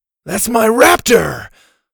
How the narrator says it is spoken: Ash shouted

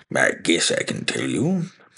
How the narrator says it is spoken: he muttered

